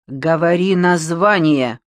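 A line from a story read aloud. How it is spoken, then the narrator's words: Menacing demand. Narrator (Russian): Цехновичер нехорошим голосом потребовал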